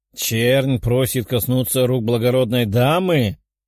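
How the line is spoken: Growled by aristocrat. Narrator (Russian): рыкнул аристократ

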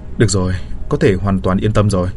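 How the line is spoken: Smiling, relieved. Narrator (Vietnamese): Bạch Dực mỉm cười

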